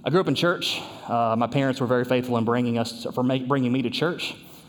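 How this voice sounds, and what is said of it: Southern Kentucky American accent. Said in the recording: “If you couldn't tell by the accent, we're from southern Kentucky, actually, near the Tennessee border.”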